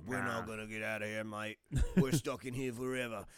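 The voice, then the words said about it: Put-on Australian accent. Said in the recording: “He's Jason Statham, apparently... He is kind of Statham-like... That's my British, or my Australian accent, by the way... that's a good Australian accent.”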